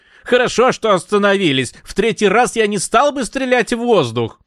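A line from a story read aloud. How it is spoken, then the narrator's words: Shouting man. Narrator (Russian): он крикнул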